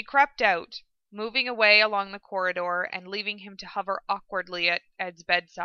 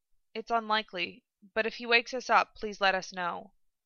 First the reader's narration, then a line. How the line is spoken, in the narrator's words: she murmured